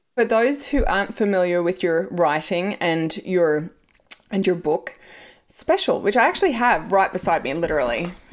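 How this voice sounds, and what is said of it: Loose Australian accent. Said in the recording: “your Australian accent is pretty loose now ... It's considered still very wildly Australian ... it is a very loose Australian accent”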